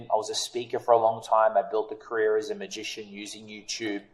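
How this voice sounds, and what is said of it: Australian accent. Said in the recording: “I'm Australian. Let's just clear the accent part out of the way. People listening, is it London? Is it South African? Is it Kiwi?”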